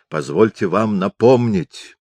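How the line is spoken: Growl. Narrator (Russian): зарычал он на ректора

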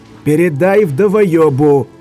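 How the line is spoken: Gruff bark. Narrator (Russian): рявкнул ульф

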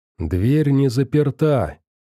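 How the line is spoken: Hushed shout. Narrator (Russian): тихо крикнул он им

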